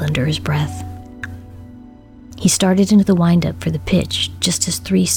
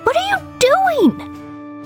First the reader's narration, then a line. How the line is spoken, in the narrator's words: Michael screamed